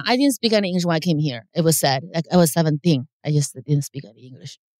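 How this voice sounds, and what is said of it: Thick non-native English accent. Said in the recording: “your accent is thick ... my broken English”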